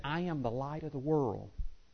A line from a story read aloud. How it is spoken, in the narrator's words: whispered it in his ear and said